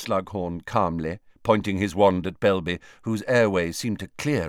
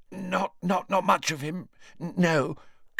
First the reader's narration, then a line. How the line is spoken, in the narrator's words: gasped Belby, his eyes streaming